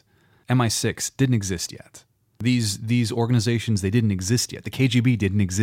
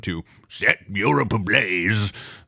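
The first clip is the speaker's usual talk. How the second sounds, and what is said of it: Imitates another person's voice. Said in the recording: “That was my Winston Churchill impression.”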